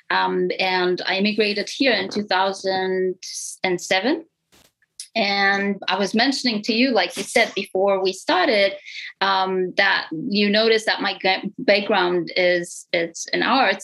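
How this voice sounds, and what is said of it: Strong Romanian accent. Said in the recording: “they're going to feel a strong accent in my voice. And that accent comes... I can't even hide it... I'm from Romania, Europe, East Europe”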